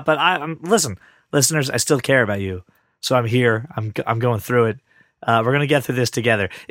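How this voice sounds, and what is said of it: Hoarse, worn-out voice from a cold. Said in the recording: “I have gotten over the worst throat and cold I've ever had in my throat... my voice is pretty shot... I do not normally sound like this... when it's not all dead”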